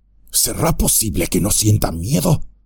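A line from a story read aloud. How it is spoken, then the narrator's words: Dwarf murmuring. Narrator (Spanish): murmuró el enano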